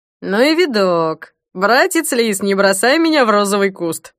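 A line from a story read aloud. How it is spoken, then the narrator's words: Clumsy joke, then laughing. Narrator (Russian): Неумело сострил Смирнов и расхохотался собственной шутке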